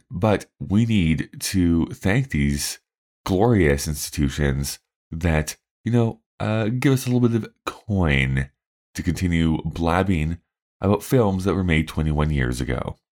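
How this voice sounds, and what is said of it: Very deep, tired morning voice. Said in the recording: “It is very early in the morning, which is why my voice sounds very, very deep. I'm very, very tired”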